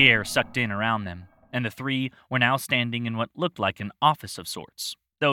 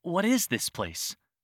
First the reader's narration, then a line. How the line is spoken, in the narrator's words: Celeste breathed out